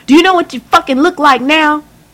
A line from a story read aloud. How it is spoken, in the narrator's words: she hollered at the top of her lungs, making my ears ring with every yelling drill